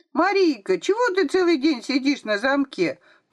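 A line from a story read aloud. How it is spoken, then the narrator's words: Thin squeaky voice behind door. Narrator (Russian): Пропищал за дверью тоненький голосок Веры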